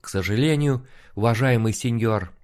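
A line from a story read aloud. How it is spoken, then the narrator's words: Frank sigh. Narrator (Russian): откровенно вздохнул Алехандро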